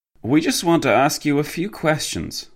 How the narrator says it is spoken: the French policeman sighed

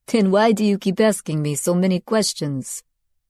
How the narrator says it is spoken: He laughed, though to take the sting out

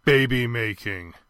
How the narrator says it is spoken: he said, his voice sluggish with the effort of clarity

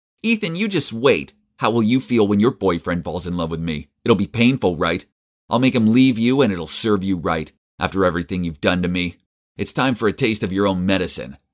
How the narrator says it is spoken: She was speaking in a mean tone, saying

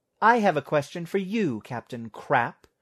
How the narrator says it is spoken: snapped Vera

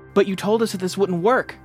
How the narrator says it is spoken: Ty exclaimed

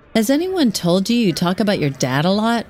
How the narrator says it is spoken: she asks

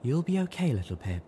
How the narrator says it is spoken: she said soothingly

